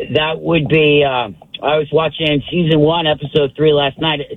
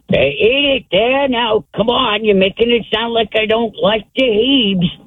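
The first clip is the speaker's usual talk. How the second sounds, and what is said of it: Archie Bunker impression. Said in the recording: “Pretty pretty good Archie Bunker impression.”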